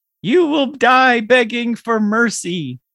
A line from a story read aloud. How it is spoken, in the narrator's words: Mike's babies can be heard shouting